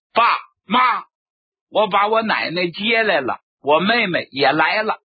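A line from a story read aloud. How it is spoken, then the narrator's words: Shouting. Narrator (Chinese): 我进去就喊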